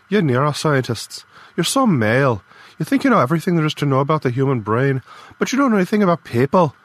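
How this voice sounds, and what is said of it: Strong Irish accent, angry. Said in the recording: “Her Irish accent got stronger when she was angry.”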